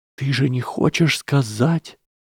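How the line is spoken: Whisper. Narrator (Russian): прошептала Трейси

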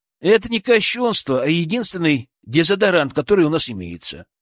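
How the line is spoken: Plain. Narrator (Russian): ответил Илья

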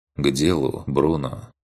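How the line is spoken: Quiet command. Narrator (Russian): приказал он тихо

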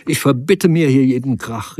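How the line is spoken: Calling out. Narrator (German): rief

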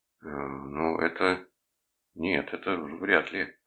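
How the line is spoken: Mumbling. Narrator (Russian): промямлил я

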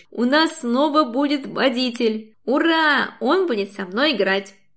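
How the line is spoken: Joyful child's yell. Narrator (Russian): Радостно вопит дочь

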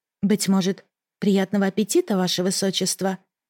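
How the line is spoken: Quiet. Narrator (Russian): произнесла негромко

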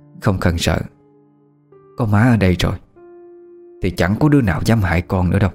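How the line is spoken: Gentle woman. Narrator (Vietnamese): Bà dịu dàng nói

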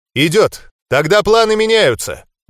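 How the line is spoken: Loud statement. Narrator (Russian): Громко произнес я

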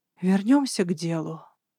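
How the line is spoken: Sighing. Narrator (Russian): вздохнула я

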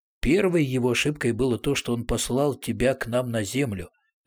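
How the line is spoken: Plain. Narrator (Russian): ответил Арамис

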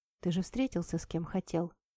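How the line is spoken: Quiet speech. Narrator (Russian): тихо сказала я

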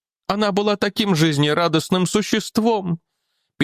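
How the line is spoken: Sad. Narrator (Russian): печально продолжала миссис Дженнифер

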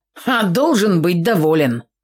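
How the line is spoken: Snorting. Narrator (Russian): хмыкнул Фимка

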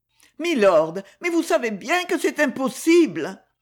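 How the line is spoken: Breathless, strained exclamation. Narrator (French): s'écria-t-elle d'une voix oppressée

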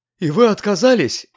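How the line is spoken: Alarmed old woman exclaiming. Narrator (Russian): в тревоге воскликнула старуха

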